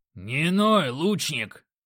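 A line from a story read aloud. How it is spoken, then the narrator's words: Growling. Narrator (Russian): рыкнул Грок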